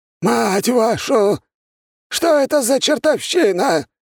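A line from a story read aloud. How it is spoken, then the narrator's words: Shouted outburst. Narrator (Russian): выкрикнул культиватор в белом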